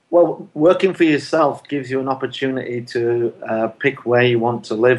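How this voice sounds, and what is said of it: Northern English accent, not American. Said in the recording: “doesn't have an American accent. He's a boy that was brought up on Leeds”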